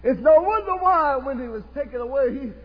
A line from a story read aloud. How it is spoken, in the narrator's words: he cried